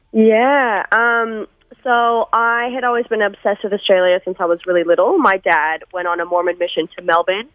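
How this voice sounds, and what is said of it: American accent with slight Australian tinge. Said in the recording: “a little bit of a weird accent... a bizarre sort of 9 year combo of slightly Australian but still hanging on to that American accent”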